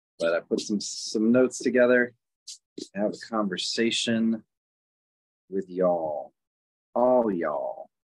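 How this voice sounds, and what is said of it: Put-on Southern accent. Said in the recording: “my new southern accent”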